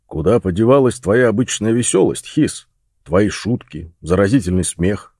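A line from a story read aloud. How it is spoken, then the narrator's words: Deep bass voice. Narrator (Russian): спросил Росс басом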